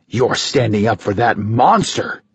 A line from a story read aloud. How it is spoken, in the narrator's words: he spat